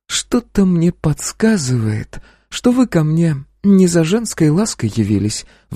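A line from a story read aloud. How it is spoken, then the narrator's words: Sighing madam. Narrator (Russian): вздохнула владелица борделя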